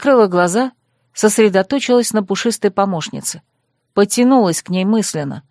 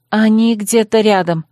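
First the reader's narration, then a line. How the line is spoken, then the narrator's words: Glum sigh. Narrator (Russian): уныло выдохнула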